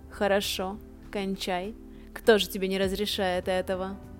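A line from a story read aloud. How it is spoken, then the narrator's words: Laughing. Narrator (Russian): я смеялась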